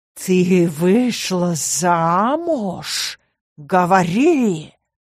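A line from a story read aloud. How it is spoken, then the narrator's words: Growling, furious. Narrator (Russian): зарычал темный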